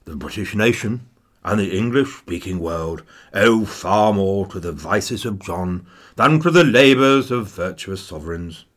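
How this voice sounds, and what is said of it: Imitates another person's voice. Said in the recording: “So there's my Winnie impression.”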